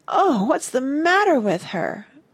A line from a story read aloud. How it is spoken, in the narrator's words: Martha's voice rose to a wail